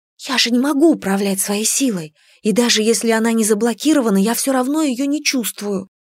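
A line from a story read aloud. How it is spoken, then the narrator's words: Whisper. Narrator (Russian): прошептала я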